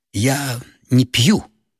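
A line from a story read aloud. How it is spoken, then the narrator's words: Hoarse reply. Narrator (Russian): хрипло ответила гостья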